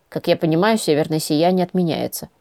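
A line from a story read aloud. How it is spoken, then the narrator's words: Grumbling. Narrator (Russian): пробурчала я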